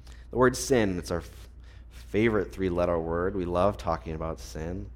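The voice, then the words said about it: Sarcastic delivery. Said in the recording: “That's being sarcastic.”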